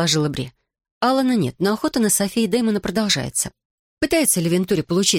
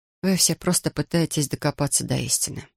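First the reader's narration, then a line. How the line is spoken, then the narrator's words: Sigh. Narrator (Russian): вздохнула она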